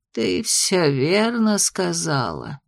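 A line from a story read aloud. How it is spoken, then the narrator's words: Gloomy. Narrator (Russian): мрачно кивнула княгиня Телина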